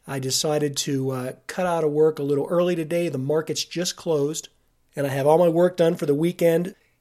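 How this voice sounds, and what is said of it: Sick, congested, worn-out voice. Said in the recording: “I am fighting off a summer cold... it always goes into my sinuses or my lungs... my voice is gone... before my voice runs out”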